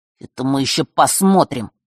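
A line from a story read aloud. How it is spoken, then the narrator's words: Through gritted teeth. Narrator (Russian): процедил в ответ золотой ключник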